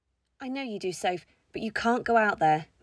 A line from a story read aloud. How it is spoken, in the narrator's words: Miss Sissons said calmly